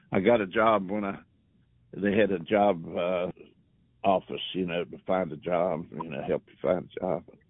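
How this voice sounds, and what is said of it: Hillbilly accent. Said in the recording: “my hillbilly accent”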